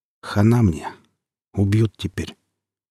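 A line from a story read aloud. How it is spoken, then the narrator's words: Quiet despairing murmur. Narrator (Russian): анестезиолог этот новенький тихонько так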